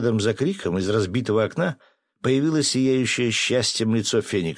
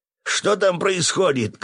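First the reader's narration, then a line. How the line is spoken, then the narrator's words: Shout. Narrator (Russian): крикнул полковник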